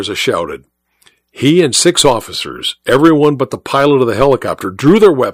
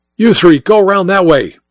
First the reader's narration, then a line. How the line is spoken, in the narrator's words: Mike shouted at the officers